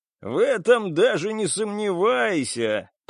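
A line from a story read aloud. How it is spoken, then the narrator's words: Hysterical laughter. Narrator (Russian): продолжила истерично хохотать Селен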